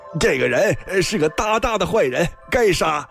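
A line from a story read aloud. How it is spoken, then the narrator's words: Scruffy priest shouting. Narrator (Chinese): 一个邋遢的道士，还大叫了声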